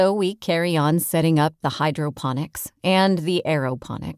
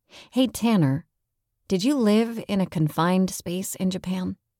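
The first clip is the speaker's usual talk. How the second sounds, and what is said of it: Lowered, quieter voice. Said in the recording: “I lower my voice.”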